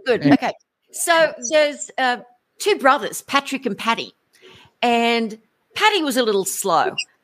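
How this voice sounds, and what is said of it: Put-on Irish accent. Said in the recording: “forgive my Irish accent”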